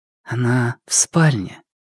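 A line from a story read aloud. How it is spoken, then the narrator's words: Quiet speech. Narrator (Russian): тихо сказала Му Цзянь Юнь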